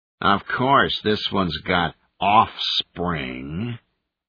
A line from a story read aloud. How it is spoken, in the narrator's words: the newcomer growled